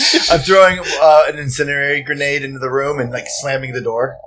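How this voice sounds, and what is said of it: Usual voice. Nothing is said of it.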